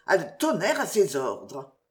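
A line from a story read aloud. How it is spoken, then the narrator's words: President's wife murmuring. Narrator (French): murmura la présidente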